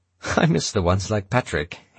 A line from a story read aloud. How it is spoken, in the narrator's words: he said with a laugh